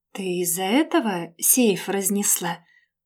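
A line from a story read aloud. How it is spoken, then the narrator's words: Muffled, dull. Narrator (Russian): наконец выдал глухо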